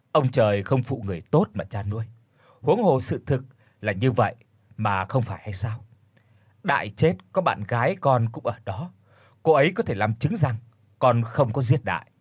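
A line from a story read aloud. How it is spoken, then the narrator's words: Sighing reply. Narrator (Vietnamese): Công thở dài đáp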